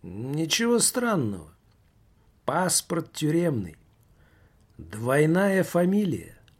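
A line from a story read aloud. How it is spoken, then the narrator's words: Plain. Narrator (Russian): ответил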